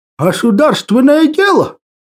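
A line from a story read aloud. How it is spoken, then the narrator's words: Nasty guffawing laugh. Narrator (Russian): отвратительно захохотал охранник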